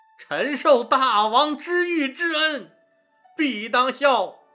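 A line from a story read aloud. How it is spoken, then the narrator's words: Trembling, tearful emotion. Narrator (Chinese): 韩信激动得热泪盈眶，颤声说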